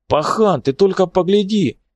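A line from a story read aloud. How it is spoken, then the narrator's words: Shouting. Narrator (Russian): крикнул он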